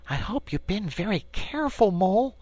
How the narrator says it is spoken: said the rat anxiously

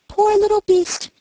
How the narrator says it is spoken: cried she

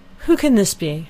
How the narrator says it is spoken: cried Elinor

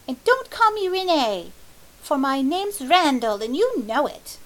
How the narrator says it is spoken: he cried

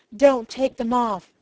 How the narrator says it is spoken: cried

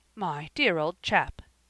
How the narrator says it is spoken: exclaimed Garth, astonished

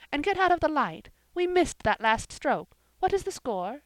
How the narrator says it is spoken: exclaimed Jane

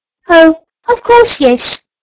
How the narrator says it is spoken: squeaked the new sawdust doll

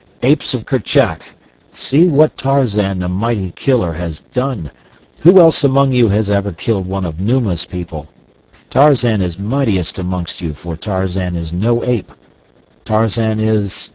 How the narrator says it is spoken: he cried

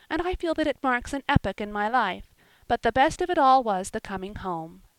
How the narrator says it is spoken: she concluded happily

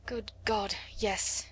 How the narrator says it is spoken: he said

